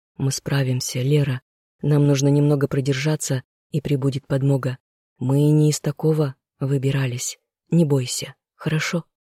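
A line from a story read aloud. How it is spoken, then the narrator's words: More quietly, male. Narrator (Russian): Более тихо сказал ей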